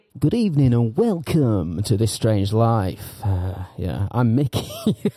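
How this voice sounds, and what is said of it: Exaggerated radio announcer voice. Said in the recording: “Doing that stupid radio voice”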